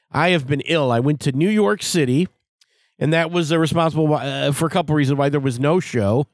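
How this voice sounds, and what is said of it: Sick, congested voice. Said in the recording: “I am not feeling well, as you can probably hear from my voice. ... just horrible coughing, congestion. I'm still dealing with that.”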